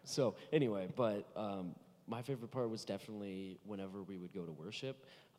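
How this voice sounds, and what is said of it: Hoarse voice, losing it. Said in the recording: “I am losing my voice. I don't normally sound like this.”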